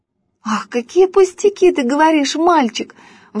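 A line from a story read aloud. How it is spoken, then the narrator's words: Exclaimed. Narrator (Russian): воскликнула Женя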